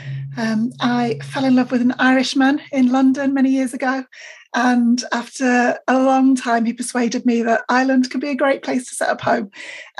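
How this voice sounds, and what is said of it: British accent. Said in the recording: “I'm from the UK originally, so I'm sure you can tell by my accent”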